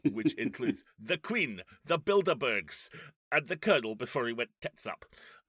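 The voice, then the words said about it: Put-on accent imitating a character. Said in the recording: “I apologize for the accent, but it's not like he can do a convincing one either.”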